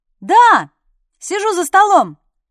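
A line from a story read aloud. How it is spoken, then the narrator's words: Shouted reply. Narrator (Russian): прокричала я в ответ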